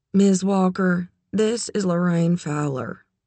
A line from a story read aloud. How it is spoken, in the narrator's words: said the principal of Charlie's school, her voice dull and detached